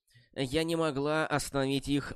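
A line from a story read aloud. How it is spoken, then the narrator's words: Timid. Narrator (Russian): робко сказала Саммер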